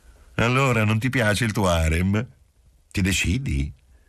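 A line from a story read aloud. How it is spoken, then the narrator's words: Kind, teasing voice. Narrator (Italian): la donna disse con voce benevola e scherzosa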